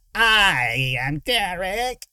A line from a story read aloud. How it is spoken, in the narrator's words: the thing in front of her whined